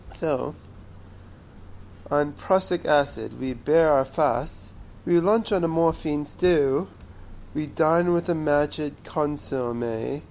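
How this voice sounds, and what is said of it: Theatrical Shakespearean reading voice. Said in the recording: “In my wonderful Shakespearean voice.”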